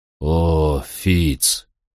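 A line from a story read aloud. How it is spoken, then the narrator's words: Sad. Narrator (Russian): сказал он печально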